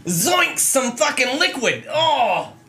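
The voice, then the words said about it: Cartoonish character voice. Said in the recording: “That's my new character voice!”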